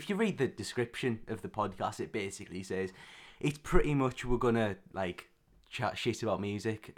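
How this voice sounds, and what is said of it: Raspy, worn-out voice. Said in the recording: “my voice is a bit... raspy... a bit worse for wear now”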